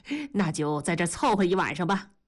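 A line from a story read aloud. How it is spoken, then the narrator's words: Smiling. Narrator (Chinese): 母亲一笑说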